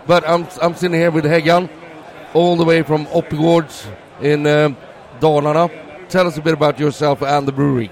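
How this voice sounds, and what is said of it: Strained, fading hoarse voice. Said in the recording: “my voice is going ... I did a karaoke last night ... I'm running out of voice”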